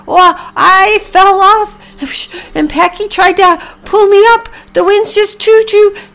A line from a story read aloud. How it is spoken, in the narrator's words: Priscilla shouted back